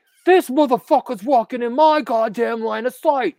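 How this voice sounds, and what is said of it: Imitates another person's voice. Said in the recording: “Patrick Bateman ... I don't do a good accent, but you get the idea.”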